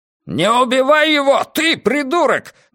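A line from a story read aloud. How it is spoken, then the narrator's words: Roared. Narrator (Russian): взревел Хаскель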